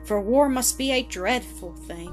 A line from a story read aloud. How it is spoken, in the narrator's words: she said with a sigh of relief